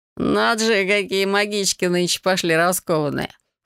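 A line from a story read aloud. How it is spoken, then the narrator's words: Young man's short laugh. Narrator (Russian): хохотнул кто-то из парней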